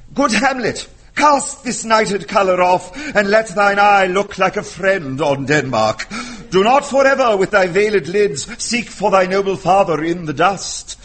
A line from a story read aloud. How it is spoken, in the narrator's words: at the age of 6 or 7, excitedly reciting the words